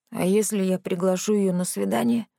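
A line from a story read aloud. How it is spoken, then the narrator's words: Hoarse whispered question. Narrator (Russian): хриплым шепотом спросил у меня Рэнди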